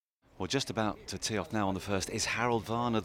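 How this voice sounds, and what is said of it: Whispering. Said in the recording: “Why are you whispering? ... Speak up.”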